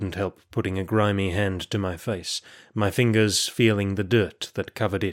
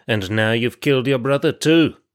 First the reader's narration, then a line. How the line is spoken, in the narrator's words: snarled Kalai